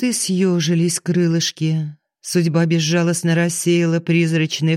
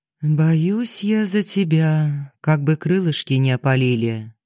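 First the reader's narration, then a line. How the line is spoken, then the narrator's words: Quiet motherly voice. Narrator (Russian): мама тихо сказала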